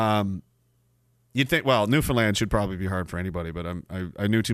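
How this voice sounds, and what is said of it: Usual voice. Nothing is said of it.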